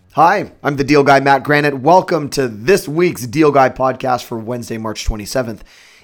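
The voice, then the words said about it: Slightly hoarse voice. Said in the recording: “If I sound a little bit hoarse or my voice continues to deteriorate over the course of this podcast, I am just on the tail end of a cold.”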